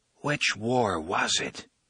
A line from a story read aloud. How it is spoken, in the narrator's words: Roland whispers